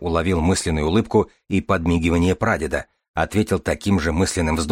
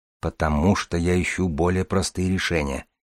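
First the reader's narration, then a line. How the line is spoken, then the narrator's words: Young man's mutter. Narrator (Russian): пробормотал молодой человек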